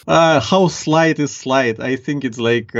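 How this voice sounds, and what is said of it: Strong Ukrainian accent. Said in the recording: “I can detect a slight accent you've got there... nice strong accent... Ukrainian... the Ukrainian accent is pretty strong”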